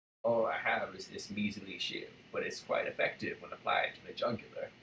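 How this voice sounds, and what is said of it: Morgan Freeman impression. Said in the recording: “I can do a Morgan Freeman impression ... That's pretty good!”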